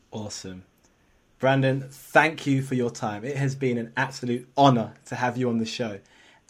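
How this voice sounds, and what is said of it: Speaks with a pleasant accent. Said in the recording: “I love your voice ... You just got that beautiful accent, man.”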